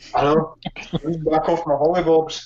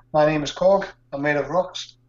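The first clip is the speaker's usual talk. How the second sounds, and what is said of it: Attempted New Zealand accent. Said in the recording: “Was that your attempt at a New Zealand accent ... puts the accent on”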